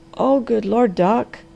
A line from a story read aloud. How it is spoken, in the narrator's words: groaned the Harvester in desperation